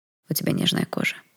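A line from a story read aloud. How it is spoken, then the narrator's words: Quiet. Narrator (Russian): тихо сказал незнакомец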